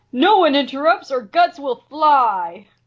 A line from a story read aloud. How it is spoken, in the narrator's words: Troy and Keith shout